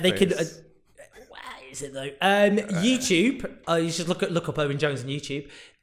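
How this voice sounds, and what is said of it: Quasi Northern English accent. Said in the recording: “my inane quasi Northern English accent”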